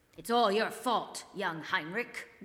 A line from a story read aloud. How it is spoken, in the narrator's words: grumbled Brother Ignatius, who had been in the choir for 50 years and thought it wasn't like it used to be